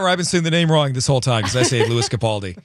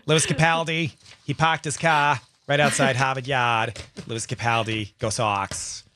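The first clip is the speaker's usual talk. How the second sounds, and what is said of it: Put-on Boston accent. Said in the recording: “Is that the Boston accent that makes you do that?”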